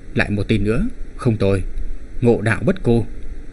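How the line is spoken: Muttering. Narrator (Vietnamese): lẩm bẩm nói

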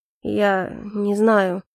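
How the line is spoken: Uncertain. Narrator (Russian): неуверенно произнес Эльфорте

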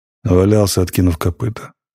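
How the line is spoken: Gloomy reply. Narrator (Russian): мрачно ответил ротмистр

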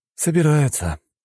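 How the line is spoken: Breathed out. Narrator (Russian): выдохнул Леня

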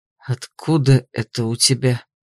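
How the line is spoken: Hoarse, husky. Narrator (Russian): поинтересовался севшим голосом

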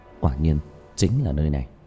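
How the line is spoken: Muttering. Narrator (Vietnamese): lẩm bẩm

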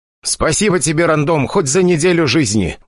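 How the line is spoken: Loud bark. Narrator (Russian): гаркнул он

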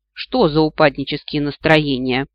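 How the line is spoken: Scoffing snort. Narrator (Russian): фыркнула я

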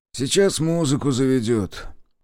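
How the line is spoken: Grumbling mutter. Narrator (Russian): буркнул кто-то из партизан

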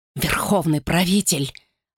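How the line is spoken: Hoarse voice. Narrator (Russian): хрипло заговорила она

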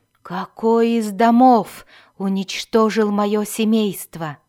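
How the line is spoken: Growled. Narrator (Russian): прорычал Альтон

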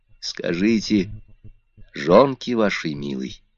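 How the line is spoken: Broken low whisper. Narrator (Russian): в полголоса, прерывистым шепотом говорил он

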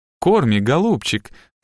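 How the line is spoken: Cooing. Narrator (Russian): заворковала Хелли

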